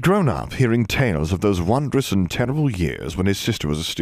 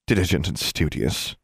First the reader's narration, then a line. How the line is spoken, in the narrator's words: snorted